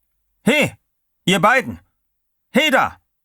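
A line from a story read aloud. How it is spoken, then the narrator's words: Guard calling out. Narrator (German): Wieder rief der Wärter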